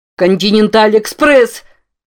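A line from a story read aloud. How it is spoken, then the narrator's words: Joyful disbelieving shout. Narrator (Russian): Не веря своему счастью, закричал Рамон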